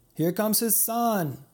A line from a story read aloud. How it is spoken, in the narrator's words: someone shouted